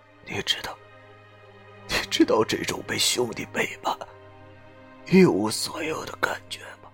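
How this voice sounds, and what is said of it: Slurred, quiet mumbling voice. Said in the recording (Chinese): “口中模糊不清的小声说道”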